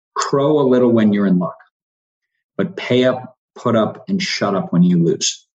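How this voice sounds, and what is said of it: Strong Boston Irish accent. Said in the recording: “for my dad, a strong sort of Boston Irish accent.”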